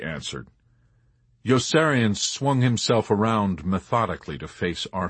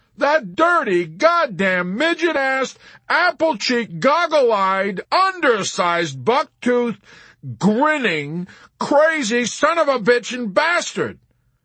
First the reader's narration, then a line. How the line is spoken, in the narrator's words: Yossarian sputtered